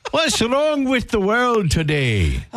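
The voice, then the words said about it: Put-on Irish accent. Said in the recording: “So you say I can't do an Irish accent tomorrow, so I have to do it today? ... let me get it out today”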